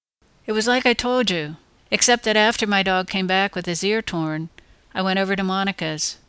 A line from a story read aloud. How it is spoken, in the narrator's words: admitted evenly